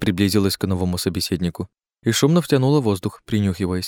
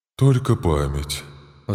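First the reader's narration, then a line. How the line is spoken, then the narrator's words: Sighing. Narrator (Russian): вздохнула Катарина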